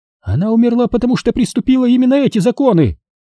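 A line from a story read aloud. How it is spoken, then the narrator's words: High, shrill snap. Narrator (Russian): огрызнулась Маклейн высоким и пронзительным голосом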